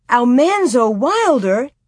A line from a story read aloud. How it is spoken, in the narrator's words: they exclaimed together